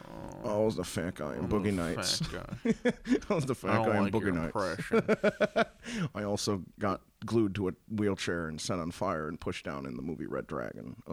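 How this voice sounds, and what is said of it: Philip Seymour Hoffman impression. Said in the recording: “I'm gonna do my Philip Seymour Hoffman impression.”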